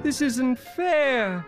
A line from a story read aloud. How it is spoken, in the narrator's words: cried Till